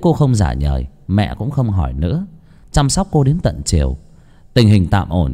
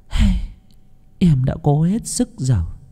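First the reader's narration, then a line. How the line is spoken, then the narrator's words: Sighing. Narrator (Vietnamese): cô ba chỉ thở dài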